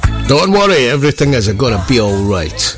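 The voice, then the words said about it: Italian accent. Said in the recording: “I said that in an Italian accent.”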